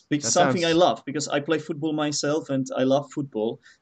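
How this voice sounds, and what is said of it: British English accent. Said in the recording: “you definitely have a British accent, which is very cool.”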